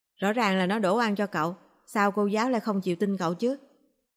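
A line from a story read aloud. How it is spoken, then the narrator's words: Cold snort. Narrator (Vietnamese): Chu Triều Dương lạnh lùng hừ một tiếng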